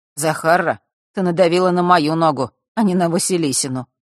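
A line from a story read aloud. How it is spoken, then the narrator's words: Sudden mocking smile. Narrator (Russian): вдруг улыбнулся он, насмешливо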